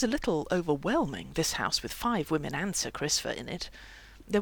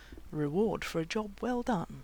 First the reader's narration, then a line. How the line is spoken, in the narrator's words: murmured Lanson